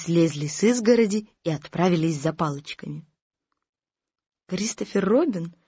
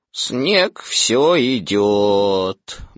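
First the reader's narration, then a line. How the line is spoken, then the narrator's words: Gloomy. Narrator (Russian): мрачно сказал Иа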